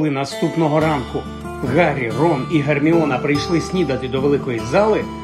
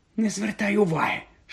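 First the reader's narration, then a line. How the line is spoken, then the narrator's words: Whispered. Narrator (Ukrainian): шепнула Герміона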